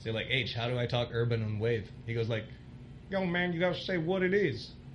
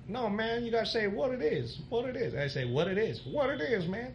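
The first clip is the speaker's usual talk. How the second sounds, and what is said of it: Imitates another person's voice. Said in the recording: “best Rex Navarrete impression ... that was supposed to be H-Town”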